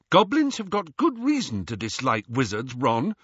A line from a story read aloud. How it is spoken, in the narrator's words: said Hermione